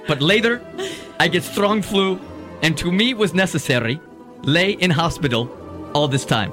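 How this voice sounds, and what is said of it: Put-on foreign accent. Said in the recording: “I'm distracted by his accent”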